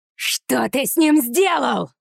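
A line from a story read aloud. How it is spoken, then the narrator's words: Shouting. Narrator (Russian): закричала Зора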